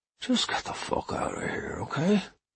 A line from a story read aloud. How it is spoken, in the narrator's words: He said, his mood changing dramatically in a moment